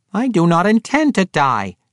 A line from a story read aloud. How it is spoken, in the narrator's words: Regis snapped back